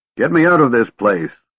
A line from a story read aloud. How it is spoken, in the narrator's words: Caramon shouted